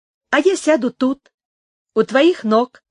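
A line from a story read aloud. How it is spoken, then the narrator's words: Exclaiming. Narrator (Russian): воскликнула Инес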